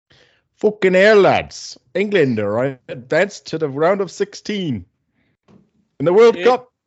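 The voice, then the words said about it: Put-on English accent. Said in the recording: “I can't talk for too long in an English accent. It'll just turn into Australian accent or a Jamaican accent or an Indian accent. So I can't do accents.”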